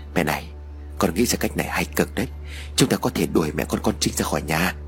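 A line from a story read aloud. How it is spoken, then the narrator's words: Soft murmur. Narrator (Vietnamese): Chú Tín thủ thỉ với mẹ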